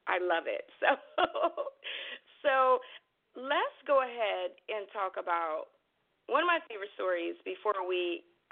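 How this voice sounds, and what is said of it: Excited, animated voice. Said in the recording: “Getting way too excited about publishing, as you can hear in my voice.”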